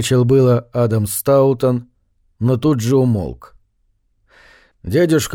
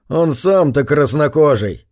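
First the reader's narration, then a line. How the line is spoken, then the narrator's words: Scornful snort. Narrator (Russian): фыркнул констебль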